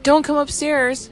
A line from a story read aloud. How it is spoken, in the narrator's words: Fonte yelled